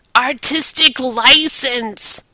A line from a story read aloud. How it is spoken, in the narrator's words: he howled, the wheezing was actually laughter